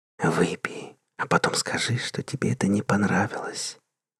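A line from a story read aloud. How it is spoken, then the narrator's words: Sweet whisper in ear. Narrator (Russian): обезоруживающе сладко прошептала ему на ухо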